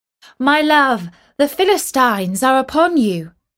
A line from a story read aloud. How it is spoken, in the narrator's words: She called out